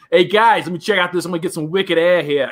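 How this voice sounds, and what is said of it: Put-on Boston Southie accent. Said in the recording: “a little Massachusetts Chris ... Southie accent”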